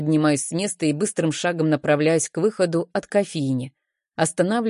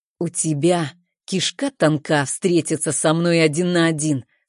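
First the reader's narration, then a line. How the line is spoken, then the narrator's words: Through gritted teeth. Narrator (Russian): сквозь зубы произносит Максим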